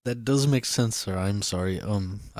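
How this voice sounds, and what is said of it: Put-on Russian accent. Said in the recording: “I don't know why I went to a Russian accent.”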